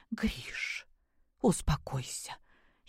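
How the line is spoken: Frightened whisper. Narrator (Russian): испуганно прошептала Любовь Сергеевна

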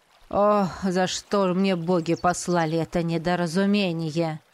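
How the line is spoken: Heavy-sighing mage. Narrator (Russian): Тяжело вздохнул маг

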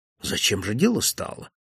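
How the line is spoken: Calm. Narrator (Russian): спокойно произнес он

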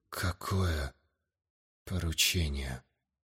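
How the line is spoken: Strained whisper. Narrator (Russian): С трудом прошептал, расслепляя непослушные губы

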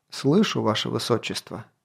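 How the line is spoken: Soft. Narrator (Russian): мягко проговорил болотник

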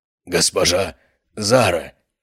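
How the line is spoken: Hoarse, choked rasp. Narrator (Russian): прохрипел охранник в моей хватке

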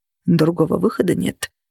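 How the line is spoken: Muttering. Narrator (Russian): пробормотал Влад

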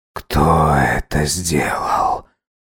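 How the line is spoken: Whispered question. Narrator (Russian): шепотом спросил Салхаб

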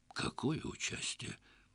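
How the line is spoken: Forced out by confused guard chief. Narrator (Russian): Кое-как выдавил в конец запутавшийся в обстановке жесточайшей секретности начальник городской стражи

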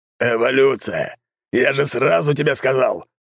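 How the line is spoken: Old man roaring. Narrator (Russian): взревел старик

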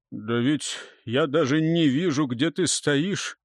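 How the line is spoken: Muttering. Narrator (Russian): пробормотал Хёд

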